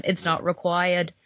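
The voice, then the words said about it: Put-on Boston accent. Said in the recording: “I was just saying in a Boston accent”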